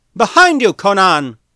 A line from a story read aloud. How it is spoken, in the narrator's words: Boydag cried out